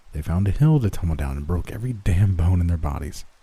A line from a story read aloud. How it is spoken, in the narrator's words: said under my breath